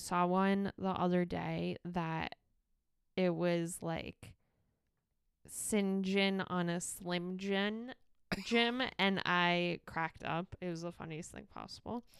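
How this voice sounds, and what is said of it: Creaky vocal fry voice. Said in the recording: “sorry for my vocal fry. ... my nasally stuff, my coughing and everything, and then vocal fry this week”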